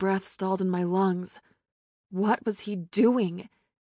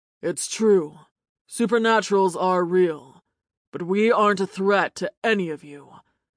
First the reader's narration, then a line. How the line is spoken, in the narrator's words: he said in a deep, sensuous voice